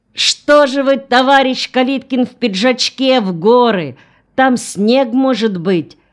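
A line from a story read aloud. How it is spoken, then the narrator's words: Officer shouting over engine roar. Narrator (Russian): прокричал офицер сквозь рев тягача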